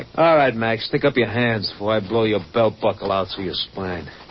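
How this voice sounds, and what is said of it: Brooklyn accent. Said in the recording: “I've been betrayed by a Brooklyn accent.”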